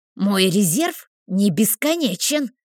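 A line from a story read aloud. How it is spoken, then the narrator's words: Snakelike hiss, female. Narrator (Russian): змеей зашипела целительница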